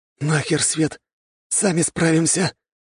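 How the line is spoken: Hoarse rasp, then coughing. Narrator (Russian): прохрипел Андрей и тут же закашлялся

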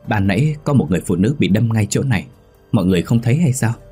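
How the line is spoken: Stammering question. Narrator (Vietnamese): Tôi lắp bắp hỏi

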